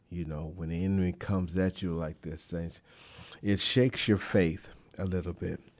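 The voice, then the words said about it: Slightly impaired speech. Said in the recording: “The magnitude of the stroke, it impacted my speech. So if I sound a little different”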